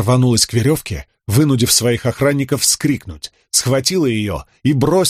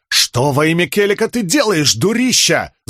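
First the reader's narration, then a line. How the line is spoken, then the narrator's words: Yelling. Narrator (Russian): завопил он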